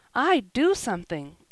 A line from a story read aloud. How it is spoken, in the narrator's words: blurted out Joel sturdily